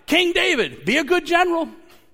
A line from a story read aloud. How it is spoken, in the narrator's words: they weren't shouting